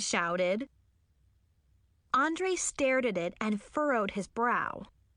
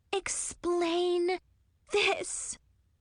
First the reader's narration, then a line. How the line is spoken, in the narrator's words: Zoe snarled